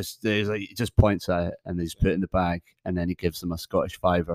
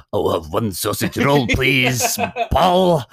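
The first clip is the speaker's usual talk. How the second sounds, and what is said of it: Put-on Scottish accent. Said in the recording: “practicing his Scottish accent”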